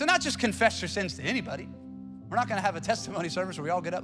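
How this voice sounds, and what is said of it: Usual voice. Nothing is said of it.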